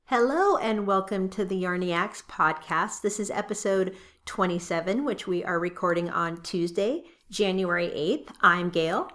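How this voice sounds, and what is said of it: Hoarse voice. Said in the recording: “excuse me for my hoarse voice. And if I happen to cough, I am getting over a cold”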